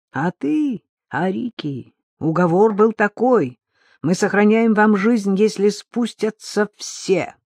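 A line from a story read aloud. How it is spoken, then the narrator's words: Shouting. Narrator (Russian): кричал Маристайль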